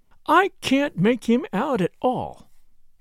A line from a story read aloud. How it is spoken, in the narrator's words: she said in an aggrieved voice